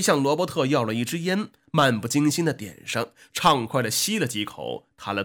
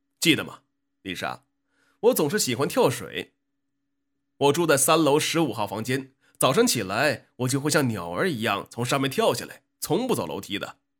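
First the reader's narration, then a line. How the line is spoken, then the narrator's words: Thin-lipped smiling. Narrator (Chinese): 咧着薄薄的嘴唇微笑着说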